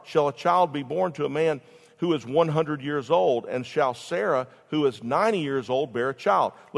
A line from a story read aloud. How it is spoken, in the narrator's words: Abraham laughed and said in his heart